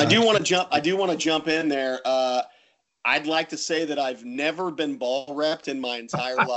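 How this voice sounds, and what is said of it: Usual voice. Nothing is said of it.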